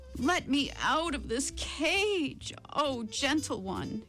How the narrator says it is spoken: cried the tiger

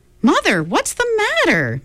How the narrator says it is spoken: Meg cried

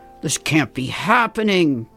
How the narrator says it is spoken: George gasped

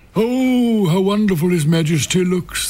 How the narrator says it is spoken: the courtiers cried

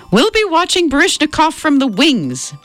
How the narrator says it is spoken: Mom shouted over the blaring orchestra

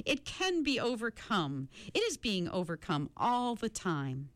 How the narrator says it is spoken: cried, smiling happily

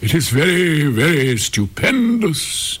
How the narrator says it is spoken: exclaimed the courtiers, for everyone was equally delighted

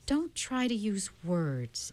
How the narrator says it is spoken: Aunt Beast said soothingly

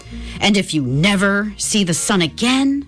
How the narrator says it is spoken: snarled the mayor

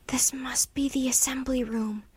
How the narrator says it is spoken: whispered Jack

